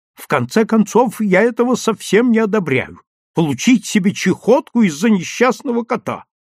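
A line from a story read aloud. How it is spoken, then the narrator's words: Irritated shouting. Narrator (Russian): раздраженно кричала Исфирь Яковлевна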